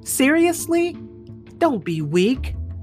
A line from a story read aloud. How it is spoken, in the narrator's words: yelled Gat